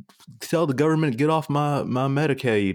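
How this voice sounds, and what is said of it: Southern US accent. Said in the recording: “sorry to our Southern listeners. I don't know why I went into that accent reflex.”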